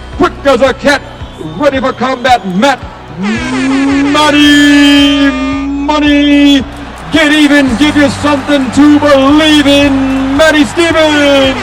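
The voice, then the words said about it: Michael Buffer boxing announcer impression. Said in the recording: “my boxing Michael Buffer announcer voice”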